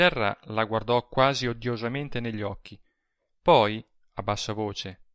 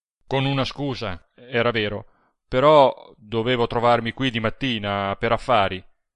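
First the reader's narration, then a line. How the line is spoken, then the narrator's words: Gruff reply. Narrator (Italian): rispose con tono ruvido il Serra e aggiunse, come per mitigar la prima espressione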